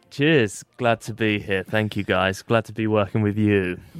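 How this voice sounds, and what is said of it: Australian-sounding accent. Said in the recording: “trying to put on an Australian accent then? ... No, it's just my voice.”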